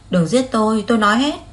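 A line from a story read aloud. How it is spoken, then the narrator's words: Exaggerated shout. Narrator (Vietnamese): Lục Nghiên Kiều khoa trương hét lên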